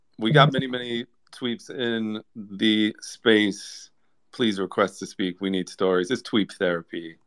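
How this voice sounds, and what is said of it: Deliberately deep, lowered voice. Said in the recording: “I'm giving you my deep voice here because it's therapy.”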